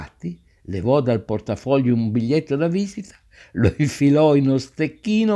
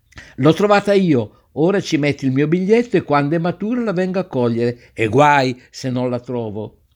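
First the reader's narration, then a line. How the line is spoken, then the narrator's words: Shouting. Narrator (Italian): l'altro gridava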